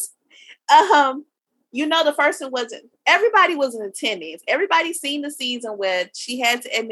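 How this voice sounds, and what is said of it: Usual voice. Nothing is said of it.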